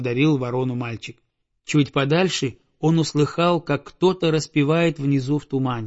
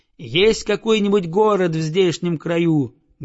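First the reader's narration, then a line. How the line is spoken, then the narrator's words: Loud child's question. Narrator (Russian): громко спросил мальчик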